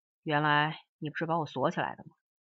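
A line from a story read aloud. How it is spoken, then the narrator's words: Plain. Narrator (Chinese): 他说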